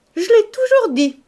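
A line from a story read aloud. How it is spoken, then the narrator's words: Exclaimed. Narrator (French): s'écria-t-elle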